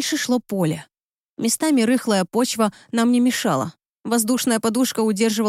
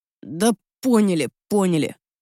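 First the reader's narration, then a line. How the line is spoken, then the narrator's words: Growling. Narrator (Russian): рыкнул Град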